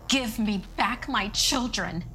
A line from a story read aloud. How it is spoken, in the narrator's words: she screamed